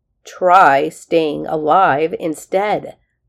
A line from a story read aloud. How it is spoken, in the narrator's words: Dex growled